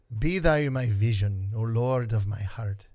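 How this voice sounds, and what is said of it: Put-on Irish accent. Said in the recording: “read the first 3 in an Irish accent”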